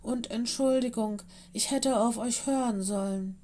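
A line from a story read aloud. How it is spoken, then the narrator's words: Purring. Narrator (German): schnurrte sie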